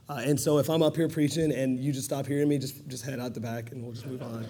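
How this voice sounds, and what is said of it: Hoarse, strained, fading voice. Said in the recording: “losing my voice.”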